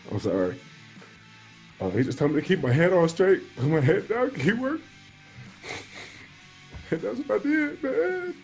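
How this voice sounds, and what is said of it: Emotional, choked-up speech. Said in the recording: “something that was real emotion ... I was a little emotional going through it ... I'm sorry for getting emotional”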